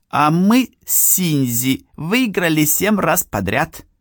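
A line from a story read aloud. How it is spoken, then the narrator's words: Shouted. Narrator (Russian): крикнул Хироши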